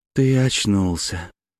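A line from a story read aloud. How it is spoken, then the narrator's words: Tender. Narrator (Russian): ласково сказала Ирина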